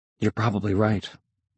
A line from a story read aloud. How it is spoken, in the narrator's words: I murmured